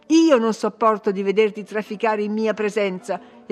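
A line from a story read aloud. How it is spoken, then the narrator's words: Imperious exclamation. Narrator (Italian): esclamò imperiosa la signorina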